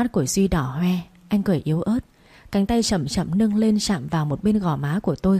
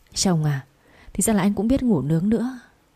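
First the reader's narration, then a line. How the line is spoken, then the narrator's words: Trembling, quiet. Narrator (Vietnamese): run rẩy nói nhỏ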